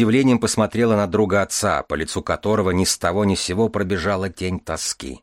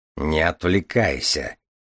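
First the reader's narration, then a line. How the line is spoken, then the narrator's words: Grumble. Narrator (Russian): проворчал Железовский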